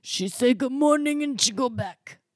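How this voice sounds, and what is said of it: Imitates another person's voice. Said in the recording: “I'm really working on my Nono impression. I feel like that was better, but it also sounds kind of like Lindsay Lohan.”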